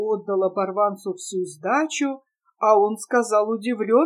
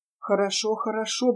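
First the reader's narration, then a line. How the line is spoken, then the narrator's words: Muttering. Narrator (Russian): бормотал Глеб Иванович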